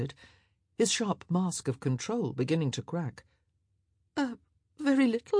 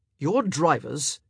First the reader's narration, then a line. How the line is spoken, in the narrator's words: he snapped